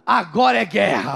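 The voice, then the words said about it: Tough, manly voice. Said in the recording (Portuguese): “com voz de. de cara, de, de. ... Não de soldadinho, de, de macho”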